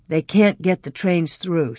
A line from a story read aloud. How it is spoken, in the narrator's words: said Pa